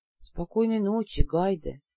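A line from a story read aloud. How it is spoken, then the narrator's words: Soft whisper. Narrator (Russian): тихонько прошептал Лин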